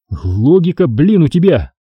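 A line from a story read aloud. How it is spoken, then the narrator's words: Snorting. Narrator (Russian): хмыкнул Марченко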